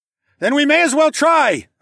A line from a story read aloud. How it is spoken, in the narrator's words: I shouted